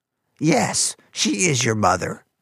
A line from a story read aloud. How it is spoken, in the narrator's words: Fungus wheezed